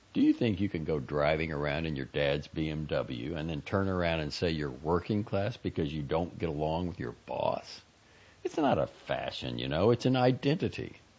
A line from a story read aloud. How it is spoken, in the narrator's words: With an irritated laugh, he answered